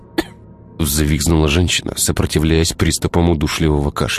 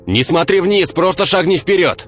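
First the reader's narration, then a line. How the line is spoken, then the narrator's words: Shouting from below. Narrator (Russian): Кричали ей снизу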